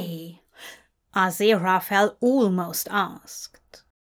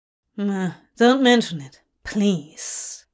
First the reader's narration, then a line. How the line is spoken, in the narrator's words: Crawley grunted